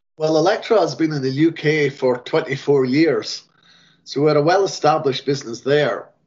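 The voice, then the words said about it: Non-local accent. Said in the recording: “I can hear from your accent you're not from my locale.”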